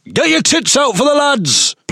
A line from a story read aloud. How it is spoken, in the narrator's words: shout sexist remarks at young women